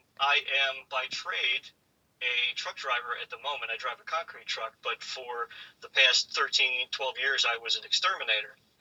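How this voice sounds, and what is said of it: New Jersey accent. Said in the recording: “You're not going to have that accent throughout the podcast, are you?”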